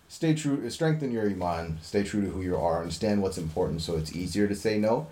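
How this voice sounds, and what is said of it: Noticeable accent. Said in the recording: “It's the way how you're talking. Your accent, bro. It's just throwing me off.”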